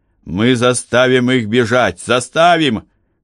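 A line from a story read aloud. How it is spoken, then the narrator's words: Shouting. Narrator (Russian): кричал Иисус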